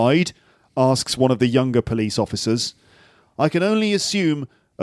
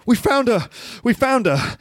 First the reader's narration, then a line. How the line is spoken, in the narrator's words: He gasps